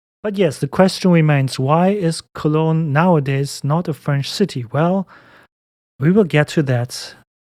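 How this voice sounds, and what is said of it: German accent. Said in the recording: “have a German accent and not a French one”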